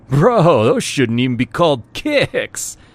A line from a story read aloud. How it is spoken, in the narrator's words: laughed